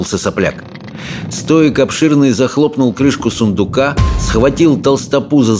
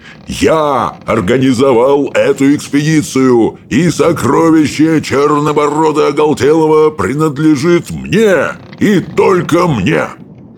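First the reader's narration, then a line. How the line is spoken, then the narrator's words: Yelling in someone's face. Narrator (Russian): заорал ему в лицо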